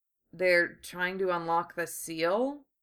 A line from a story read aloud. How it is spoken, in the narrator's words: Lee mumbled